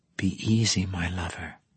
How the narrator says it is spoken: she whispered

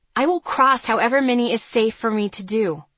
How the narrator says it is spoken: I snapped

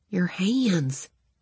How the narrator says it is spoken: he choked out

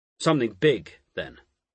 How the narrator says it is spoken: Michael Poole said sternly

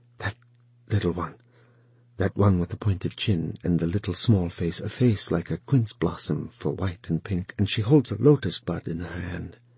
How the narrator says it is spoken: And then his desire overcame him, and he whispered

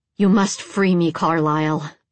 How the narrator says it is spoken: the woman growled

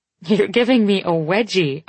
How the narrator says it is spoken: I say, laughing

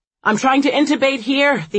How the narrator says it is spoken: the anesthesiologist yells at an ICU nurse

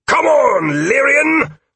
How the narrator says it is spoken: He yelled at me

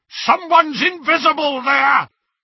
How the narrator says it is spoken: shouted a masked Death Eater

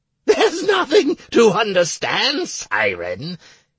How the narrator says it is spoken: Carmandant went on giggling

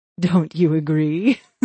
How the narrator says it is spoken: She laughed merrily at her own joke

